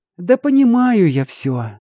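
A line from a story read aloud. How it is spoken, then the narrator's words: Young woman, heavy sigh. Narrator (Russian): тяжело вздохнула девушка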